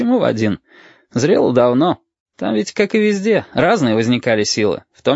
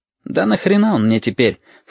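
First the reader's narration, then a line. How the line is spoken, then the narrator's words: Scoffing grunt. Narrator (Russian): хмыкнул Абов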